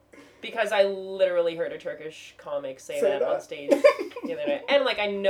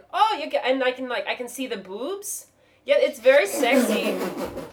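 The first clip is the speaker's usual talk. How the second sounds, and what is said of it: Put-on Turkish accent. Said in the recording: “I'm bad at them ... I can sort of do a Turkish accent.”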